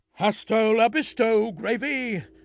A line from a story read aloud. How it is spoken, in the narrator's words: yelled Ray